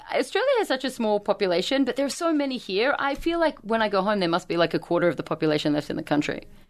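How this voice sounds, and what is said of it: Australian accent. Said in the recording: “she has this f***ing cool accent, too... She must be from Australia”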